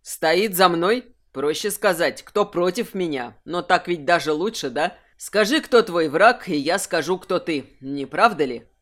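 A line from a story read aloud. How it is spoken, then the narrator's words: Cold, irritated. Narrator (Russian): Холодно улыбнулся Кирсан, которому уже начал надоедать этот обмен недомолвками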